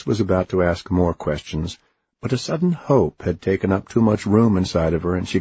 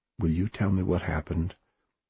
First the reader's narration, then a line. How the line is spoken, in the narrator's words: Oliver said quietly